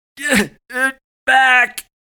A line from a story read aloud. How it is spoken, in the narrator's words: Chance groaned